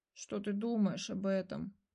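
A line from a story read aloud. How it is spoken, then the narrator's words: Dejected question. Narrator (Russian): упавшим голосом спросил Мотя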